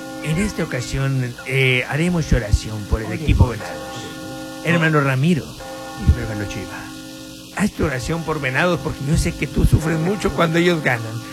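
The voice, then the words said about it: Put-on Spanish accent. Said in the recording (Spanish): “Pero con acento español”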